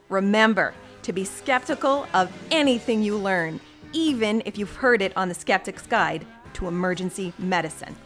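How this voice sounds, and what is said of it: Stern triage nurse, mom-like voice. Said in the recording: “in your best triage nurse voice ... That sounded a bit like a mom voice too”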